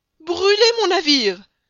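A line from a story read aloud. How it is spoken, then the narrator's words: Choked, barely articulate exclamation. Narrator (French): s'écria le capitaine Speedy, qui ne pouvait même plus prononcer les syllabes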